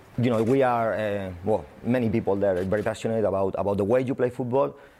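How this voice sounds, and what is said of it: Spanish accent. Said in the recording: “I'm Spanish, as you can see with my accent”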